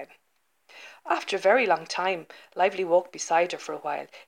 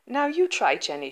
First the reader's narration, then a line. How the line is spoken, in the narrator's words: she said